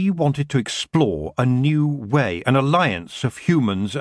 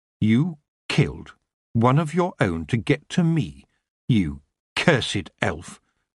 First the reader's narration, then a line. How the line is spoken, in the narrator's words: Tiffany said, her voice cold, red-hot anger boiling inside her